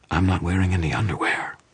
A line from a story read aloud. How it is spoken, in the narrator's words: Susan whispered into my ear